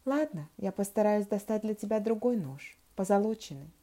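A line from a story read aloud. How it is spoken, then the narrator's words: Plain. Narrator (Russian): сказал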